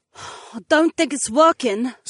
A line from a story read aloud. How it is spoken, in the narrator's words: Sienna sighed